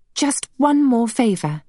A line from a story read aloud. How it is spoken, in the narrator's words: she begged